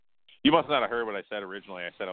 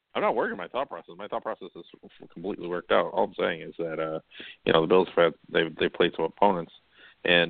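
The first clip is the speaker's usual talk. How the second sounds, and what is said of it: Mumbling Bill Belichick impression. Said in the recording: “sounds a lot like Bill Belichick in his post-game interviews, just a whole lot of mumbling and incoherency ... I was talking like Belichick on purpose ... did a good impression”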